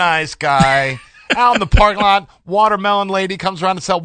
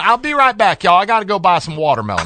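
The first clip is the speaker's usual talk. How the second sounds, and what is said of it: Imitated thick Southern Texas accent. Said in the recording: “just thick Southern accent ... That accent was Texas all over.”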